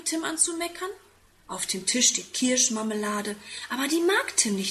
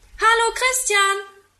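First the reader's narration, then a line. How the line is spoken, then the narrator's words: Calling from a window. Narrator (German): ruft er aus dem Fenster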